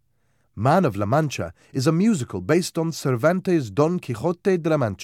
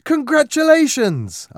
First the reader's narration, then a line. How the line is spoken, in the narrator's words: exclaimed